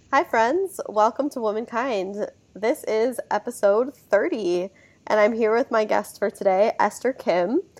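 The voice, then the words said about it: Slightly hoarse voice. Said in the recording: “excuse my voice. I am getting over a cold slash allergy attack, so I'm a little hoarse”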